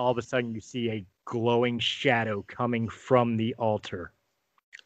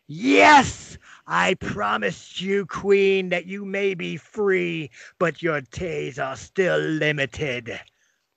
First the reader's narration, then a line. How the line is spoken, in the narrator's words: Baba Yaga scream exultantly